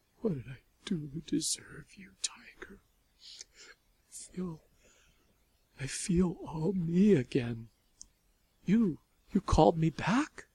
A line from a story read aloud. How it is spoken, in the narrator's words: Sobbing as quietly as she could, Lavinia said